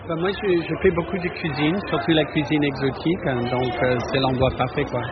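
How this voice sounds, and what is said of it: Slight American accent speaking French. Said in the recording (French): “Je reconnais un petit accent ... Monsieur américain.”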